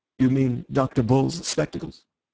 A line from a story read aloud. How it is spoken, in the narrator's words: the president went on with a sort of smooth appeal